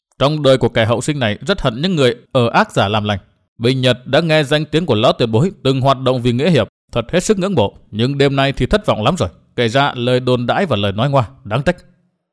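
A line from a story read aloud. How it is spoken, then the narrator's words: Cold laugh, continuing. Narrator (Vietnamese): Qua một tiếng cười nhạt, Nguyên Bình nói tiếp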